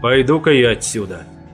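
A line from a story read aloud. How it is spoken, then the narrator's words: Grumbling. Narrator (Russian): пробурчал я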